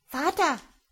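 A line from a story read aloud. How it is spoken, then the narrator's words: Sudden cry. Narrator (German): plötzlich den Mund auf und rief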